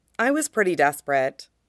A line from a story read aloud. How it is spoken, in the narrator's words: says Wei Wuxian